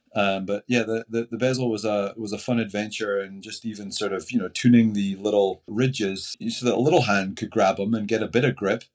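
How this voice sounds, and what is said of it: Scottish brogue accent. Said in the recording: “Are you Scottish? Is that the brogue that I hear? ... Yeah, I'm Scottish.”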